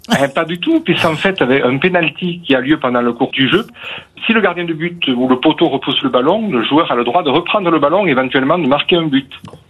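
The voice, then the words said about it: Slight southern French Aveyron accent. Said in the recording (French): “Je sens un petit accent, je me trompe? ... Oui, je suis un Aveyronnais convaincu.”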